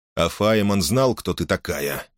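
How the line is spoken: Calm question. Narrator (Russian): спокойно спросил Мейсон

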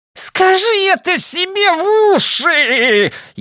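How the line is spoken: Furious shriek. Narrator (Russian): Яростно визжал метр Дот

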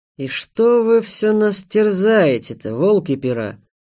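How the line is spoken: Grumbling mutter. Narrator (Russian): буркнул он

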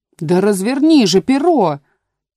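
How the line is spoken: Shouting sheep. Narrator (Russian): снова закричала овца

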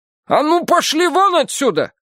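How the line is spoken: Shouting. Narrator (Russian): крикнула она

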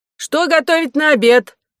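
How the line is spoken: Shouted from window. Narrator (Russian): крикнула из окна кухня

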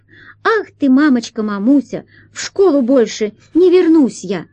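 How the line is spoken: Joyful children's choir singing. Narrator (Russian): Хор из мальчиков и девочек радостно подхватил припев

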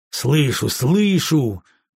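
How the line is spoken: Growled through teeth. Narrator (Russian): прорычал я сквозь зубы

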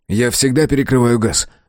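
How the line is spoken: Exclaiming. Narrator (Russian): воскликнул Мэлори

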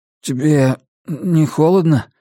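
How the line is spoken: Hoarse. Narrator (Russian): хрипло спросил он

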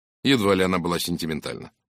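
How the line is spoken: Dry. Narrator (Russian): сухо произнес Фурнье

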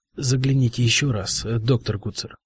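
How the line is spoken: Whispered. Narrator (Russian): прошептал он

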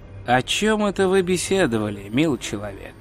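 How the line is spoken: Quiet inquiry. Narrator (Russian): негромко поинтересовался величайший вор в Ангмарпорке

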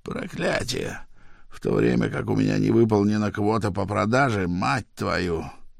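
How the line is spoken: Hateful mutter. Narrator (Russian): с ненавистью … бормотал

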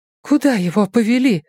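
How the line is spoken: Trembling voice. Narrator (Russian): спросила Нина дрожащим голосом

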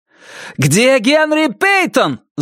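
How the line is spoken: Yelling. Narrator (Russian): заорал Риджвик патрульному Прайсу

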